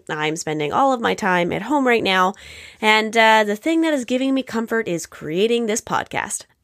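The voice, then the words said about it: Congested, odd-sounding voice. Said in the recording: “my voice is sounding so weird. I developed some cold symptoms”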